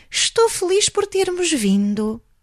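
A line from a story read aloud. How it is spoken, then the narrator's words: Sighing. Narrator (Portuguese): suspirou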